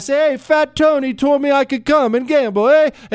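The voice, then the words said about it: Put-on Italian accent. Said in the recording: “That was a good Italian accent.”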